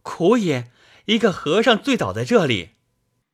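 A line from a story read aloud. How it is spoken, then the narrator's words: Exclaiming. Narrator (Chinese): 小猴子叫道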